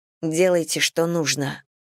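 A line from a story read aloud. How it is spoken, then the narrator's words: Barely audible whisper. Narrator (Russian): едва прошептав старшему следователю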